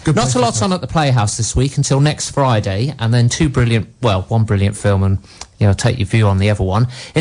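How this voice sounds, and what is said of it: Slightly deep, congested voice. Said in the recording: “I've got a bit of a cold, which is why I've got a slightly deep voice”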